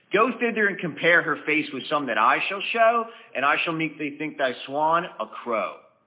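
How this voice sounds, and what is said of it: Baltimore accent. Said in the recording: “Shakespeare with a Baltimore accent.”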